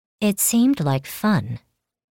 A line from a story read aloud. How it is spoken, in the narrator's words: she said calmly